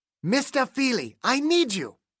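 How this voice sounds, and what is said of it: Gruff German accent. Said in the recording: “A gruff German accent.”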